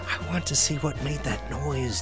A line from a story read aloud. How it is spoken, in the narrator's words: the fox replied in a whisper